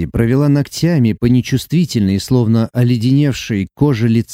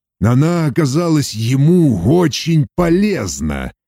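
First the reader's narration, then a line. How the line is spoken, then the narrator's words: Strange, unfamiliar voice. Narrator (Russian): продолжал Дэн чужим голосом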